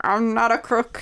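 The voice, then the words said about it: Imitates another person's voice. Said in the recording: “Richard Nixon impression ... pretty good ... That's pretty good”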